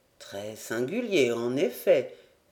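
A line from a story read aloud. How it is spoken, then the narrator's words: Murmur. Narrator (French): murmura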